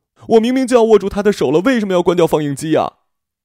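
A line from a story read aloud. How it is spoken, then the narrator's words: Loud shout. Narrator (Chinese): 惠恩大声喊着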